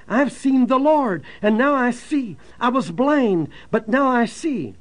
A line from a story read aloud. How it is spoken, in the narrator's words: with an expression of joy on his face, and he cried out